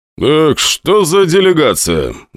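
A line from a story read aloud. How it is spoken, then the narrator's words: Loud question. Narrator (Russian): громко спросил Русов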